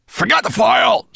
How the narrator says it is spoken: spat Nettlebrand

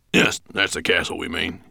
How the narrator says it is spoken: he grunted

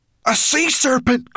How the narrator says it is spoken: cried Ben

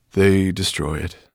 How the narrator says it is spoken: the old dragon said wearily

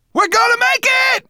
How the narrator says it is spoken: shouted Berberchan

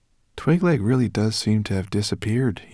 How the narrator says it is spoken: he murmured

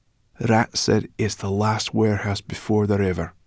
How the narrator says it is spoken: she whispered

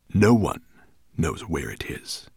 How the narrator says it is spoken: he growled

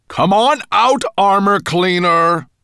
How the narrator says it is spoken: bellowed the voice from above

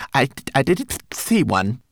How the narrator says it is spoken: he stammered

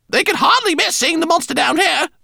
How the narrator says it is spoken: Lola shouted back

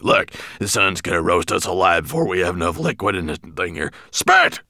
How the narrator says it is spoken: Nettlebrand growled

